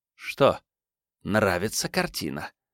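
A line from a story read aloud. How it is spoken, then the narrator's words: Angry hiss. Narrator (Russian): гневно прошипела миссис Крэг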